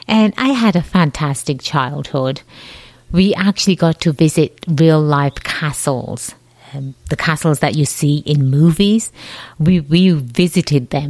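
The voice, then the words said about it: Slight English accent. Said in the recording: “I have a slight accent... I was born and raised in England”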